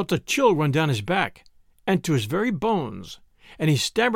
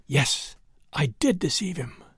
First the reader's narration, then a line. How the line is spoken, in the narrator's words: She was quieter now, and putting her mouth to her husband's ear, she whispered